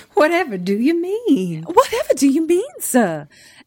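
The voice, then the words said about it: Good Vivien Leigh Southern accent. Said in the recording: “a really good, like, Vivian Leigh Southern accent”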